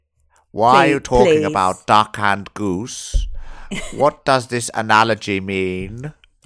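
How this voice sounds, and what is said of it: Hammy Hannibal Lecter-style character voice. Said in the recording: “I've just put on a Hannibal Lecter accent ... hammy”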